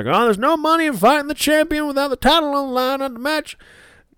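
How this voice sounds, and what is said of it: Bad impression of JR. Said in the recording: “bad JR impression”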